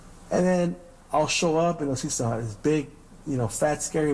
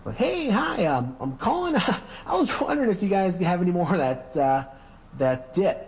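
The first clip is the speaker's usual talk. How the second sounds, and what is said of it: Put-on stereotypical white-sounding voice. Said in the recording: “Do the white voice.”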